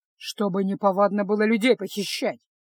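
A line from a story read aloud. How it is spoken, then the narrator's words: Gruff mutter. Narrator (Russian): буркнул Кайл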